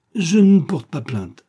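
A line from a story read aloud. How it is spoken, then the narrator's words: Exclaiming. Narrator (French): s'écria-t-il enfin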